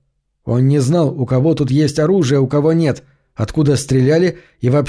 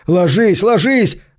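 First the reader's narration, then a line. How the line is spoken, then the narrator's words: Yelling. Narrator (Russian): заорал полисмен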